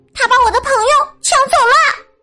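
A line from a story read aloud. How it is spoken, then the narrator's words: Shouting. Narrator (Chinese): 克劳福大喊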